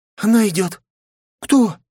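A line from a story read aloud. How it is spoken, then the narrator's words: Frightened question. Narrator (Russian): испуганно спросила Минами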